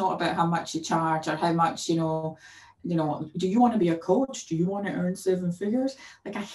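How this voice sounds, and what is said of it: Usual voice. Nothing is said of it.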